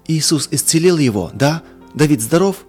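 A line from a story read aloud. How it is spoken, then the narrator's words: Exclaimed. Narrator (Russian): Воскликнула она еще раз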